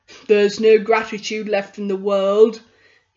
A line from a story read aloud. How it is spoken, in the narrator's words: grumbled